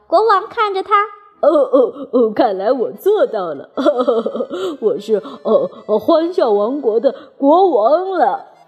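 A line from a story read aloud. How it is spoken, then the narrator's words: Giggling. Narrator (Chinese): 阳光小姐咯咯笑着说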